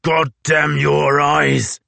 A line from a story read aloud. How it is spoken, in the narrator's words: roared Thomas Blanky